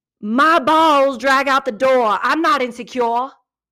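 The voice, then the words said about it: Attempted New Jersey accent. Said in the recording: “I'm going to try to do a New Jersey accent, you guys, but please don't judge me for this. Like, I'm not an accent gal... I'm sorry if that was awful. It felt awful.”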